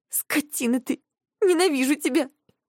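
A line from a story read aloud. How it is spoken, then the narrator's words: Sobbing. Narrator (Russian): Говорю и снова всхлипываю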